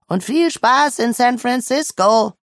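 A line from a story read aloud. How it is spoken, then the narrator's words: Calling out to her. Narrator (German): ruft ihr zu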